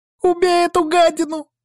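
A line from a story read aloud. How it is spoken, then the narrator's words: Hysterical girl's shout. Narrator (Russian): истерично выкрикнула девчонка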